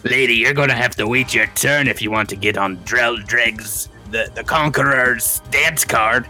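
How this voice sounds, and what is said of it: Accented dwarf character voice. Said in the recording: “my accent here is the most racist thing about this dwarf”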